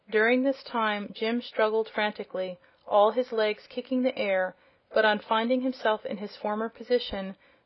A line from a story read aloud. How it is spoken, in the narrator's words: the horse said in a relieved tone of voice